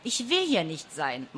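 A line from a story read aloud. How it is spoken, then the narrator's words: Loud grumbling. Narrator (German): maulte es laut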